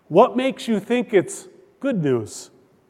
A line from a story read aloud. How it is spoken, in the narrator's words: he asked